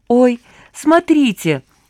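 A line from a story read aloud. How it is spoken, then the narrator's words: Exclaiming. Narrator (Russian): воскликнула Анка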